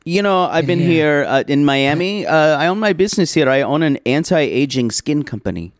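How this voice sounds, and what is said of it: Put-on Israeli accent. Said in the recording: “Mike, the Israeli anti-aging skin company owner... do you have an accent?... I am Israeli”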